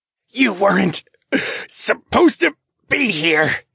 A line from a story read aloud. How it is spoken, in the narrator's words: he gasped, his face was rapidly turning red, then purple